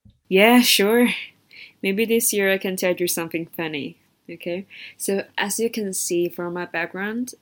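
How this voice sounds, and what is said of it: Chinese-influenced hybrid English accent. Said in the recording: “I'm Chinese... I have a hybrid accent when speaking English”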